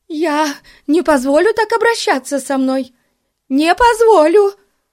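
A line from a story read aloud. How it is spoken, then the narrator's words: Sobbing. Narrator (Russian): продолжала рыдать миссис Мун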